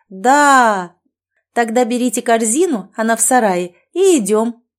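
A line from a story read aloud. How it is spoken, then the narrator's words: Happy laughing. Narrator (Russian): рассмеялась я, думая, что у меня замечательные дети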